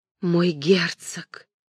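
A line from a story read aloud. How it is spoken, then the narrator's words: Surprised whisper. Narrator (Russian): прошептала она удивленно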